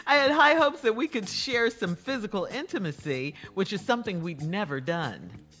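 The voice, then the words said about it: Noticeable accent. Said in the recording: “so your accent.”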